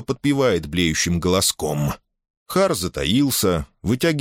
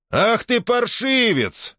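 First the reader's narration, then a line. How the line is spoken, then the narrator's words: Yell. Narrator (Russian): завопил он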